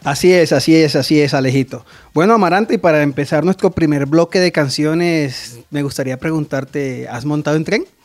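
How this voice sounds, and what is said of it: Colombian Pasto regional accent. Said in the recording (Spanish): “Usted es como de Pasto, ¿cierto? Por allá, ¿cierto ese acento? ... Un poquito.”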